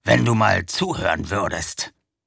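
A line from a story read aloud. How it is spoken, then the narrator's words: Werewolf's growl. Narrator (German): knurrte der Werwolf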